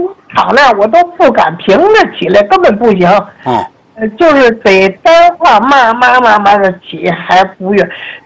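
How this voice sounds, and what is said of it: Wuqing regional Chinese accent. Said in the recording (Chinese): “我听您口音是武清人吗？”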